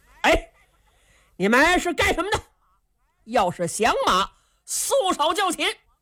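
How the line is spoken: Shouting. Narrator (Chinese): 这位韩将军…冲着秦琼这六个人就喊

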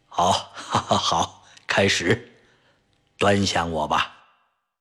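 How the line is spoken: Joking tone. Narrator (Chinese): 陈铁良用玩笑的口吻说

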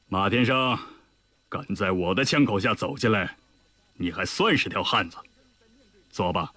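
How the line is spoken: Satisfied laugh. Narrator (Chinese): 李云龙满意地笑道

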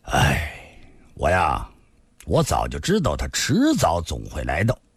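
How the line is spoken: Long sigh. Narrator (Chinese): 李寻欢长叹道

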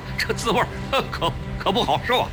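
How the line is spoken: Forced smile. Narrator (Chinese): 胡庆阳勉强笑笑

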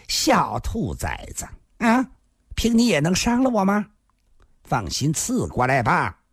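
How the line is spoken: Laughing scolding. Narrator (Chinese): 大欢喜女菩萨笑着骂道

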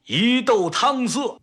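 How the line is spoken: Loud shout. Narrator (Chinese): 陈铁山大声喊

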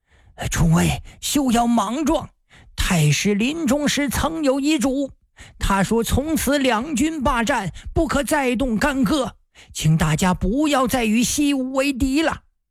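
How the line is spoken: Hurried. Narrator (Chinese): 白云托和蛮子海牙一看事情不妙，急忙对众人说

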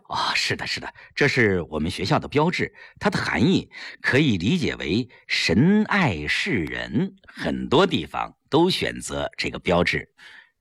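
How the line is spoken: Slight smile. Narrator (Chinese): 教务主任微微一笑

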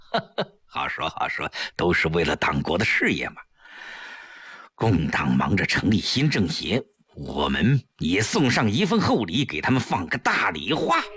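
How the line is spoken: Chuckling. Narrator (Chinese): 程寒三一笑

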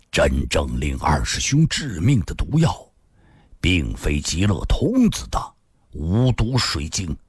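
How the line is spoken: Deep, grave voice. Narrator (Chinese): 新树沉声说道

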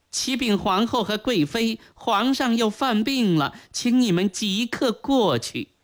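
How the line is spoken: Servant's report. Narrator (Chinese): 管事牌子 禀告说

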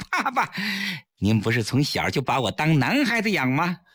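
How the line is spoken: Laughing. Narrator (Chinese): 崔月笑着

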